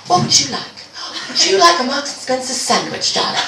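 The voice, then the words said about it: Put-on accent. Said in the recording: “I'm gonna do the accent, it's gonna be uncomfortable”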